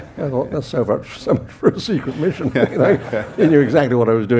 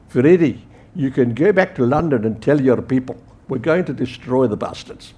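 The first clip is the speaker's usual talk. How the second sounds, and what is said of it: Drawling South African accent. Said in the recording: “drawl from the other side of the fire and stick, and South African accent.”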